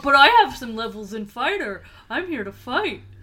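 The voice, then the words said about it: Imitates another person's voice. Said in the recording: “that's my treble impression”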